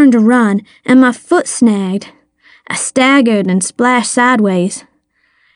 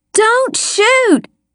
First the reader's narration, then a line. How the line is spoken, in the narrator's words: I screamed